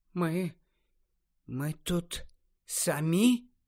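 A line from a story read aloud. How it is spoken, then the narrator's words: Quiet question. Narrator (Ukrainian): тихо запитала Нарциса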